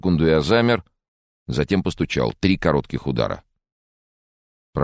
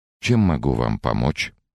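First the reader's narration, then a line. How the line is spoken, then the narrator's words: Calm, gentle voice. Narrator (Russian): Его голос звучал рассудительно и ласково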